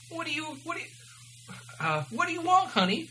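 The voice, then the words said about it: Exaggerated New Jersey accent. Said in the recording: “Her voice had a terrible, obvious New Jersey accent.”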